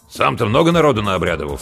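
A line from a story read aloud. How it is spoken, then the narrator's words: Stern sentry asking. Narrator (Russian): спросил дозорный строго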